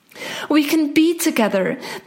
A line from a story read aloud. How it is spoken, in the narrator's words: the princess exclaimed